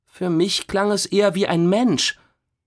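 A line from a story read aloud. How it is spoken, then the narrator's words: Toneless. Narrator (German): sagte Jana tonlos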